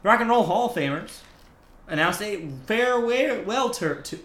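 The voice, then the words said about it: Slight put-on Southern accent. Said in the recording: “I'm getting a little Southern accent there.”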